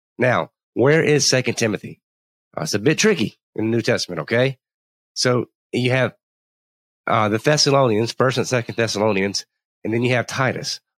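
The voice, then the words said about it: Voice off from a cold. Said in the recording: “I have had a terrible cold ... if my voice sounds a little bit off”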